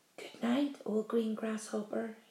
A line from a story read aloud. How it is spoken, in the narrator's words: whispered